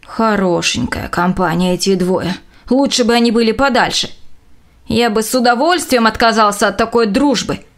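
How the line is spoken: Grumbling. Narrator (Russian): пробурчал Доув

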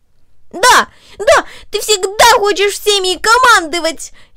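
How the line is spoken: Furious shout. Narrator (Russian): яростно выкрикнул он

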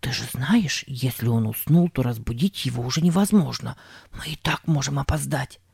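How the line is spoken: Rapid whisper. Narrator (Russian): скороговоркой прошептал Сэм

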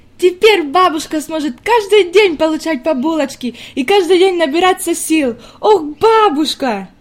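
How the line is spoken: Sudden joyful girl's exclamation. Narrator (Russian): неожиданно воскликнула девочка с еще большим ликованием в голосе

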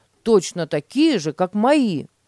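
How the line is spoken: Exclaiming. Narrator (Russian): воскликнул Петя

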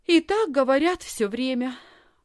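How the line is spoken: Sighed. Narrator (Russian): вздохнула Лисхин

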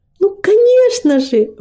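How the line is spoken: Exclaiming. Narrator (Russian): воскликнуло прославление

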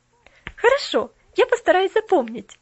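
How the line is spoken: Laughing. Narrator (Russian): рассмеялась Поллианна

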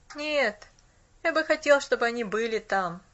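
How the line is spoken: Wistful sigh. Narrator (Russian): тоскливо вздохнул он

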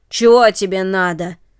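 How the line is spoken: Gruff question. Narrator (Russian): спросил грубым голосом

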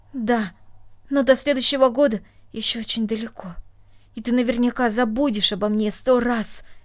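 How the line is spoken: Angry, reproachful. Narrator (Russian): сердито сказала она, как будто упрекая своего друга

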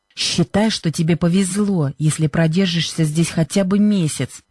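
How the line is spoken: Hissed. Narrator (Russian): прошипела Бренда

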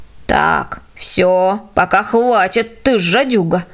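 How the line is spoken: Old woman's mild grumble. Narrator (Russian): беззлобно ворчала старушка

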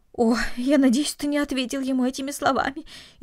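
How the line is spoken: Frightened. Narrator (Russian): испуганно произнесла мать

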